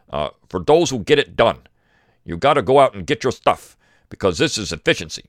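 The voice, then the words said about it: Put-on Midwestern American accent. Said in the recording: “this guy that comes on in a Midwestern accent”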